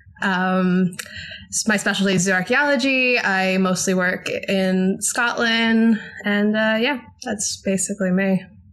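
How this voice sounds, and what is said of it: American accent. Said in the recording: “As you can tell by my accent, I'm American.”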